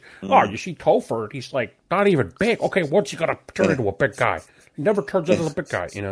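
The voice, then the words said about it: Imitates another person's voice. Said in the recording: “video of Todd McFarlane talking ... I love that impersonation, version.”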